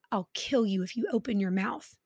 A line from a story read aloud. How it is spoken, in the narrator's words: he whispered to her